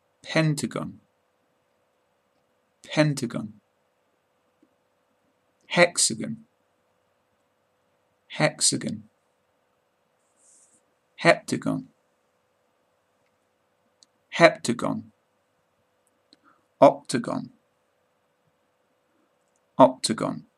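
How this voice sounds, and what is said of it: British English accent. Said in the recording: “British accent”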